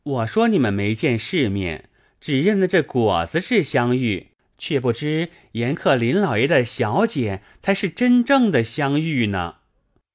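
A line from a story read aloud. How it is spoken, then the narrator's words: Laughing. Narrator (Chinese): 小号现形笑道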